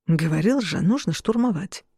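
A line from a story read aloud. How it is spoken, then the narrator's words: Whisper. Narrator (Russian): прошептал Шон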